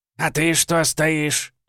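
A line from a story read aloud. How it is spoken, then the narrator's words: Old man barking. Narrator (Russian): рявкнул старик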